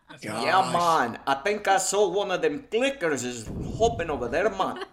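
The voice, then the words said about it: Attempted South African accent, sounds Jamaican. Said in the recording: “Who can do a South African accent? ... That's more like Jamaican. ... That's Jamaican.”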